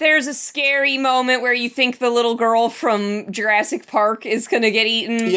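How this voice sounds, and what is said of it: Usual voice. Nothing is said of it.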